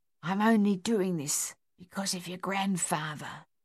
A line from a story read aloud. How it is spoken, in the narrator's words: the housekeeper whispered